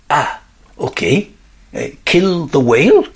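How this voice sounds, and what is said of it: Put-on French accent, worried tone. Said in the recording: “sounding worried ... I did an excellent job of conveying the worry in his voice there. And not only doing the French accent, but also conveying worry as well.”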